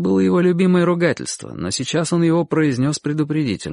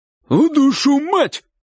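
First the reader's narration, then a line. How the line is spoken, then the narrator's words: Shout. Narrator (Russian): крикнул дядя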